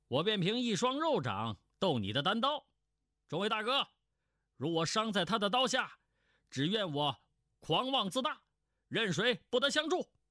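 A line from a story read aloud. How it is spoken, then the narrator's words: Loud voice. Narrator (Chinese): 商宝镇高声说道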